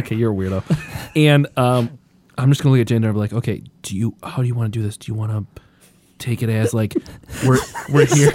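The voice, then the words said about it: Whispering. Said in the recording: “You said not to whisper and you started whispering again.”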